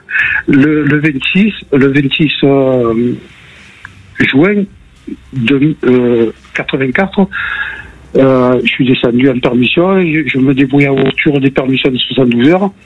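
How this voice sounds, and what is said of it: Marseille accent. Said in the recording (French): “j'habite Marseille ... on avait entendu à l'accent”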